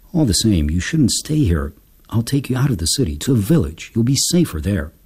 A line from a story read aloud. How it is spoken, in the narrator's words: he sighed and muttered